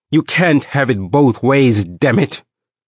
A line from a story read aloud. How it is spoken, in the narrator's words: my father said angrily